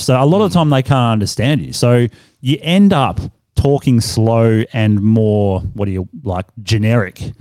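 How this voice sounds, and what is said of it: Australian accent. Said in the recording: “You still got your Aussie accent thing going”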